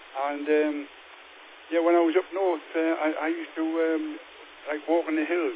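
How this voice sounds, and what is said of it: Geordie northern English accent. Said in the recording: “a different accent to some people over England. Yeah, I'm a northern lad, a Geordie boy.”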